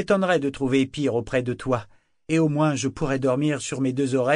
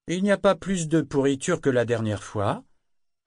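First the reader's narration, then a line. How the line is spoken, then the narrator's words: Loud, almost cheerful remark. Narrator (French): observa-t-il tout haut d'un ton presque enjoué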